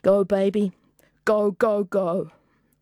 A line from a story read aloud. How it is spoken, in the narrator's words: she was stifling her sobs